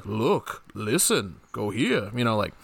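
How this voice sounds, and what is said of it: Imitates a game character's voice. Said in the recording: “that's my Professor Layton impression.”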